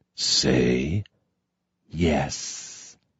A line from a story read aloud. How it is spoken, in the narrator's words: I whispered